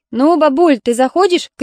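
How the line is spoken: Driver shouting. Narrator (Russian): крикнул водитель

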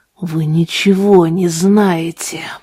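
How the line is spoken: Hissed. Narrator (Russian): прошипел он

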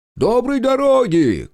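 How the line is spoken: Shouted after departing carts. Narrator (Russian): крикнул Захар вслед отъезжающим повозкам

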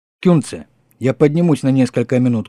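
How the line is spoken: Shouting. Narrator (Russian): крикнул ему Польман

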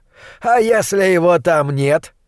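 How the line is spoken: Giggling. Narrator (Russian): хихикнул фон Хельрунг

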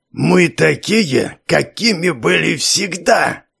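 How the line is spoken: Hiss. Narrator (Russian): Продолжил шипеть начальник тюрьмы

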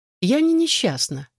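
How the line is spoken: Cheerful. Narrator (Russian): весело сказала она

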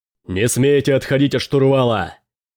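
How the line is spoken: Roaring. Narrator (Russian): взревел Дрейк

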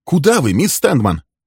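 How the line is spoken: Sharp. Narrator (Russian): спросил он резко

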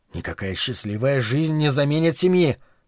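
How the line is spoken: Through gritted teeth. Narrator (Russian): процедил я, на мгновение забыв, с кем разговариваю

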